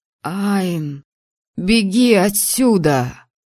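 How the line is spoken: Hoarse rasp. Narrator (Russian): прохрипел студент

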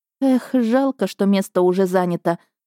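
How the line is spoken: Sigh. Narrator (Russian): вздохнула

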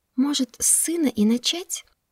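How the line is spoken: Whisper. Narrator (Russian): шепнула Нархеро

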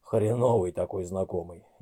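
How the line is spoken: Displeased grumble. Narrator (Russian): недовольно буркнул ему в ответ Большой

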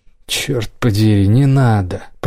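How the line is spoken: Old man grumbling. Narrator (Russian): пробурчал дед

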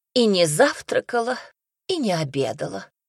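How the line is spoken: Sighing female voice. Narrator (Russian): вздохнула Альмира

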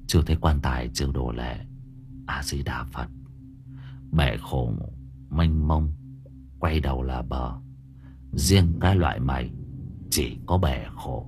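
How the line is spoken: Sighing. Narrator (Vietnamese): Tâm Trúc thở dài

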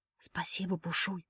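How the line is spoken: Whisper. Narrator (Russian): прошептала

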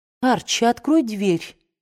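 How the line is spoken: Calm. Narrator (Russian): спокойно сказала Мелани

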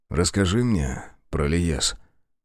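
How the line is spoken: Soft request. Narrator (Russian): тихонько попросил он

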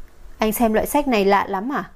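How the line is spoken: Cold voice. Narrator (Vietnamese): Giọng nói lạnh lùng của Lục Trình Thiên vang lên

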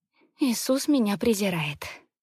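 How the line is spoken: Tired, fearful. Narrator (Russian): устало говорит она, с ужасом в глазах

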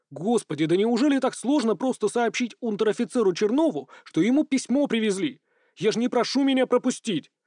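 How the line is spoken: Desperate yelling. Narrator (Russian): Уже просто заорал, отчаявшись достучаться до ретивого служаки

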